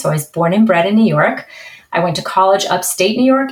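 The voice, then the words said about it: New York accent. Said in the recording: “I have a nice New York accent.”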